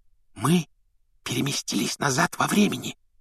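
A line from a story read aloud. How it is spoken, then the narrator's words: Whisper. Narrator (Russian): шепотом объяснила Гермиона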